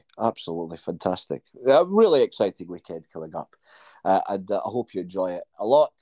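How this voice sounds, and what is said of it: Croaky voice. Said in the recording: “your voice is a bit croaky”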